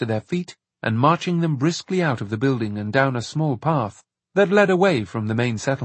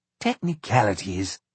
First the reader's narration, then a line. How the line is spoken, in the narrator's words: muttered Charles